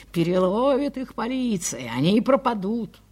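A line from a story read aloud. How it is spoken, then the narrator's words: Distant irritated shout. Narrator (Russian): В другом месте на дворе кто-то кричал раздраженно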